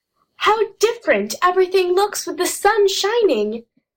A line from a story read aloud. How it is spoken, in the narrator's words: exclaimed Jess